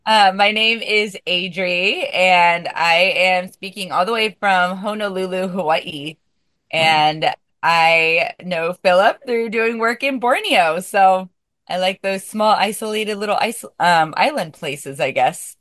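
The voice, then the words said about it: Slightly raspy voice. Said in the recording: “so my voice is a little bit raspy because that's what happens when the volcano erupts”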